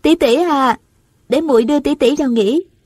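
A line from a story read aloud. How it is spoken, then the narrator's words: Smiling call. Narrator (Vietnamese): Nàng mỉm cười gọi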